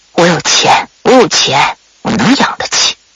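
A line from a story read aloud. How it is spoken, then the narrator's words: Trembling, muttering repeatedly. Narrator (Chinese): 马奶奶…颤抖的手…嘴里啊不停的就在那嘀咕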